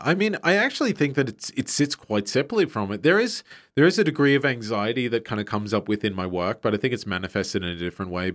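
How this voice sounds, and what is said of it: Australian accent. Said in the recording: “Australian artist ... as you can tell by his groovy accent”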